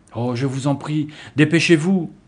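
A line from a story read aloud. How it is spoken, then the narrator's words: Girl exclaiming. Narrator (French): s'écria l'une des filles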